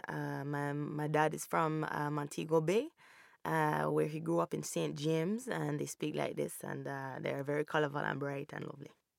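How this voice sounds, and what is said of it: Put-on Jamaican accent. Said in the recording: “just accents, Jamaican, this is Jamaican”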